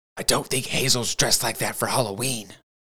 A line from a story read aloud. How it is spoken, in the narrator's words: Parker whispered